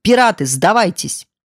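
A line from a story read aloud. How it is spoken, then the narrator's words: Thunderous shout. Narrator (Russian): дядя Алек закричал громовым голосом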